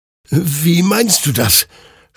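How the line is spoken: Confused stammering. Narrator (German): stammelte Hector verwirrt

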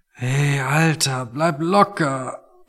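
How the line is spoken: Quiet, pained. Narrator (German): meinte Tony und sprach leise, weil jedes Geräusch einfach noch zu viel für ihn war

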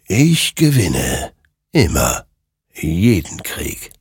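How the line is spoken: Murmuring. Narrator (German): murmelte dieser

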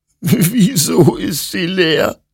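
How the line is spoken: Sobbing. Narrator (German): schluchzte Hector

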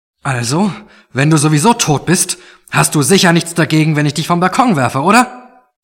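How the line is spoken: Said loudly. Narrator (German): sagte Mark laut

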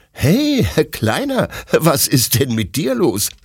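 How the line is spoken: Laughing question. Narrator (German): fragt Detlef lachend

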